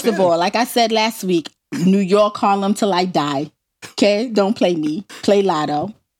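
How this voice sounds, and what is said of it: Thick New York accent. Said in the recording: “why is my New York accent so damn thick? ... I couldn't even pretend that I wasn't from New York”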